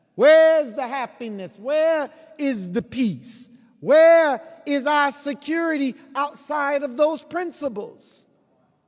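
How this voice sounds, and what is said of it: Loud, impassioned near-yelling. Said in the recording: “Excuse my passion. Sometimes I don't know if I'm yelling or just raising the volume.”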